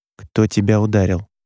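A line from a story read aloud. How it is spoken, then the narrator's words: Forced calm question. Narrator (Russian): спросил Роман, стараясь, чтобы голос звучал спокойно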